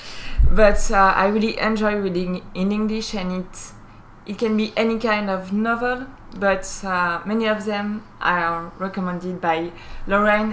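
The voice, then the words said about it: French accent in English. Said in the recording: “I'm a French speaker, naturally, you can hear that in my accent”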